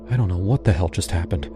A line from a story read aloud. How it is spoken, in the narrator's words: I whispered